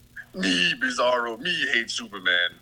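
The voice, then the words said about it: Bizarro character voice. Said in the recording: “do the voice ... Bizarro”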